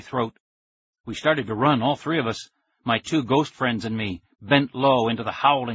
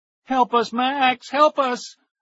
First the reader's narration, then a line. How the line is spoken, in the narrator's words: I heard their terrified cries and the howl of the wind